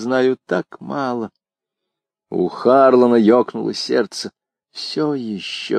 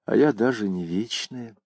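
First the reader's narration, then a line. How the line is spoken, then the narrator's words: Mumble. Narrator (Russian): пробормотала Нойс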